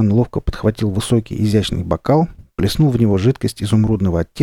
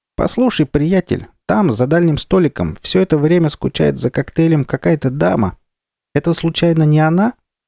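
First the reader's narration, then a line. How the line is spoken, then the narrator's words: Cheerful squeak. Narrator (Russian): Моллюск Кривозуб весело пропищал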